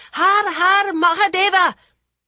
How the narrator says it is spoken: The other boys raced behind him with bloodthirsty yells of

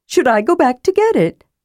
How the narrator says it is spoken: asked eagerly

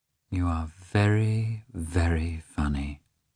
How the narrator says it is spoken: Dolly repeated, looking tenderly into his face

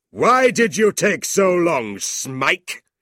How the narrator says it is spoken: Squeers shouted

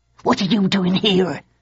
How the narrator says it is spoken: hissed

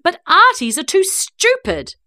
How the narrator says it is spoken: said, raising my voice so everyone could hear it

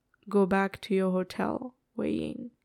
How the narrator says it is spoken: he says quietly, tonelessly

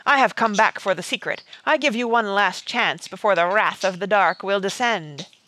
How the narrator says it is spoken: he shouted

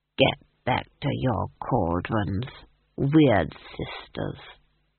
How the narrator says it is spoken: he said softly

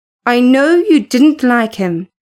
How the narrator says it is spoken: she answered

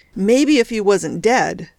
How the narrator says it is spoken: snapped the boss

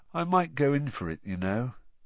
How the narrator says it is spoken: Ron said sleepily through the darkness

